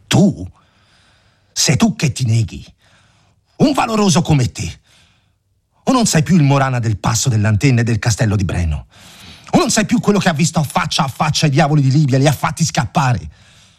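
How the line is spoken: Angry exclamation. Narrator (Italian): avvampò, esclamò

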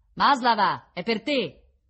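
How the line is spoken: Shouting warden. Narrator (Italian): gridò la sorvegliante

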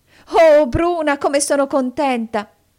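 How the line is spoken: Ecstatic exclamation. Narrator (Italian): esclamò, come in estasi

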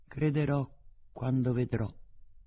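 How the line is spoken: Plain. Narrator (Italian): disse

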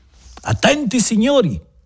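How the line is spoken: Shouting. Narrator (Italian): gridò Bebè Silva

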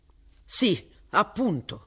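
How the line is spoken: Curt. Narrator (Italian): disse seccamente

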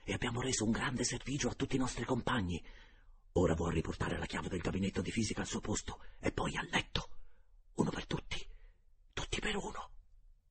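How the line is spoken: Low voice. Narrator (Italian): disse a bassa voce il Michelozzi

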